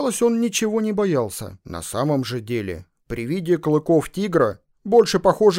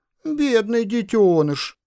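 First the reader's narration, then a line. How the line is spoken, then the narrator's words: Mocking boy. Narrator (Russian): продолжал мальчишка насмешливо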